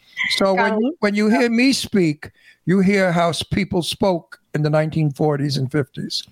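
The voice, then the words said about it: Old-fashioned New York accent. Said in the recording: “I'm a New Yorker, in case you didn't hear the accent. ... I speak ancient New York. ... I have an accent of years and years ago.”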